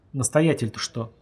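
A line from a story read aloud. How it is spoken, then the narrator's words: Gloomy reminder. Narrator (Russian): мрачно напомнил Ян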